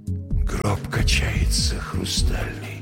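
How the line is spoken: Whisper. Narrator (Russian): прошептал я

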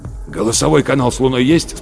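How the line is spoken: Hoarse question. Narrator (Russian): спросил Рудольф Терентьевич хриплым голосом

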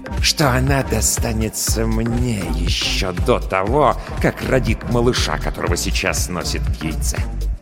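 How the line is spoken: Drawn-out hiss. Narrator (Russian): добавляет Джаки Ирус, растягивая слова в шипение

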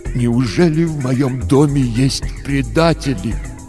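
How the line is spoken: Father's tragic voice. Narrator (Russian): отец сказал трагическим голосом

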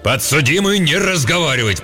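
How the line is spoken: Roaring judge. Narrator (Russian): проревел судья

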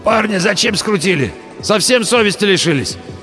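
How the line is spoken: Hoarse wheeze. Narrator (Russian): Пенсионер прохрипел

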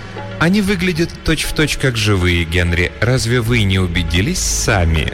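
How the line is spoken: Ingratiating question. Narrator (Russian): вкрадчиво спросила она

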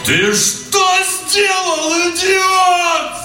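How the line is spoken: Full-throated echoing yell. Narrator (Russian): заорал Данила во все горло, и его крик поднялся под крону дуба и эхом разнесся по окрестным участкам

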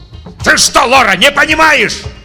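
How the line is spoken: Yelling. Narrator (Russian): орал Татлин

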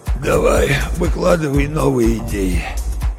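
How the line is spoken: Hoarse rasp. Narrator (Russian): Джок прохрипел

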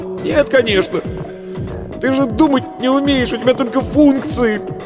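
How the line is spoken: Laughing loudly. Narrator (Russian): Варвара расхохоталась

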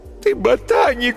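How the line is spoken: Sobbing. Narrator (Russian): всхлипывала Алиса

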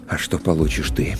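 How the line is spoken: Quiet, restrained anger. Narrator (Russian): С трудом удерживая в груди закипающий гнев, я спросил тихо

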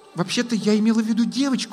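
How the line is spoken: Puzzled mutter. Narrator (Russian): озадаченно пробормотала Лесса

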